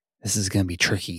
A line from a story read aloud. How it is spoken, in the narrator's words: he whispered